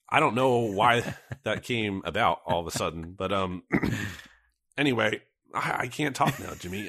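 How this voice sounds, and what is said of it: Hoarse, voice giving out. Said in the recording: “I'm just losing my voice. ... It's just like I'm talking and it's not coming out right.”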